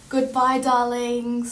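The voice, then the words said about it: Put-on British reality TV accent. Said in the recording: “say goodbye in your best Love Island accent.”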